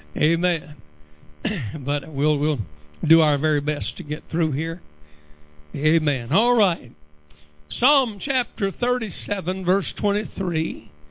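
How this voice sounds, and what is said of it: Slightly raspy voice. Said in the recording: “My voice is a little raspy tonight”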